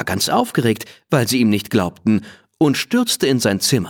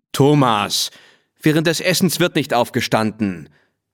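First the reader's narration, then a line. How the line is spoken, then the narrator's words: Annoyed father calling. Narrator (German): rief sein Vater genervt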